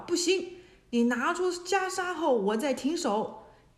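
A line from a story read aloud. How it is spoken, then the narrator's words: Shouting. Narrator (Chinese): 孙悟空叫道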